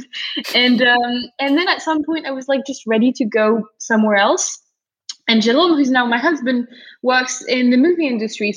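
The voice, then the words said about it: Franco-American British accent. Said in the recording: “as you might spot from like Franco-American British accent.”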